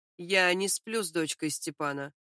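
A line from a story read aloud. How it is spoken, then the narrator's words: Calm explanation. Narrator (Russian): спокойно поясняет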